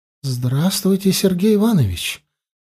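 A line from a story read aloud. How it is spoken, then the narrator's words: Friendly, almost tender. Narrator (Russian): Приветливо, едва ли не ласково сказала заноза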